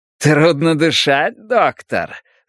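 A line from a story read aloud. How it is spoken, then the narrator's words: Laughing. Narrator (Russian): засмеялся Демарко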